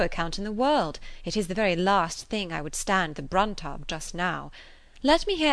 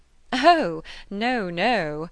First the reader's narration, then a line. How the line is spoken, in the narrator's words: cried Emma, laughing as carelessly as she could